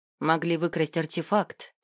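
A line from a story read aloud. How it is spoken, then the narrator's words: Calm. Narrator (Russian): спокойно проговорил Ил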